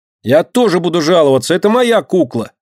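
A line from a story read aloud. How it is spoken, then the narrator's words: Shouting. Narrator (Russian): крикнула Динка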